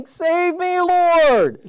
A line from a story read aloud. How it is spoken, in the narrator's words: he shouted